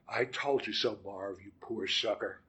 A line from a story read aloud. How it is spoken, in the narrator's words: say under my breath